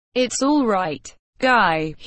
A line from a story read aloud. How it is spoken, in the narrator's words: he said